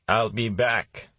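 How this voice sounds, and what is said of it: Terminator impression. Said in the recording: “in his best Terminator voice.”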